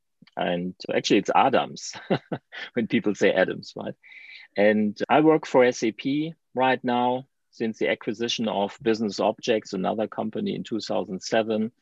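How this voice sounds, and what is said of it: German accent. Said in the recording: “as you can hear from my accent, I'm from Germany”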